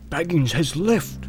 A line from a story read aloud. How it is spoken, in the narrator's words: he answered with a whisper